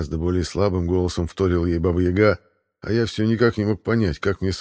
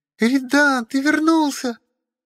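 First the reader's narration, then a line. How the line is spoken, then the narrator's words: Shrieking. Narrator (Russian): завизжала Василиса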